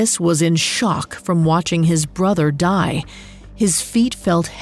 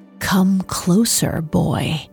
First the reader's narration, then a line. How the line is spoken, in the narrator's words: She whispered